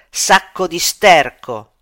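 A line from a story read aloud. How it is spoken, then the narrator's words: Shouted insult. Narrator (Italian): gli grida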